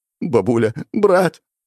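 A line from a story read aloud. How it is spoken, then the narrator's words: Trembling tearful voice. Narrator (Russian): Говорил он дрожащим голосом, продолжая утирать все бегущие слезы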